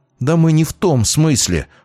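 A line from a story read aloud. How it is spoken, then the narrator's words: Flaring up, flustered. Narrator (Russian): вспыхнула Скворцова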